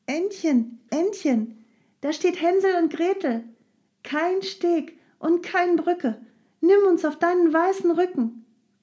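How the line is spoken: Called out. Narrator (German): rief sie

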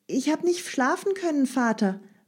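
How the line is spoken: Called back. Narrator (German): rief sie zurück

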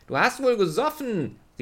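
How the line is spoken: Calling out. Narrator (German): rief Leo

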